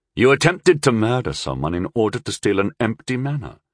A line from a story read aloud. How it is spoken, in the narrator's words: Rundle said flatly